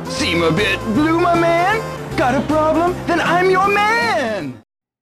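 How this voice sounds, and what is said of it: Surfer dude voice. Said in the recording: “talks like a surfer dude”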